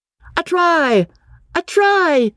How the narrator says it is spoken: yelled Freddy

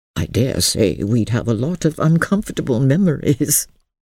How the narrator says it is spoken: said, laughing a little

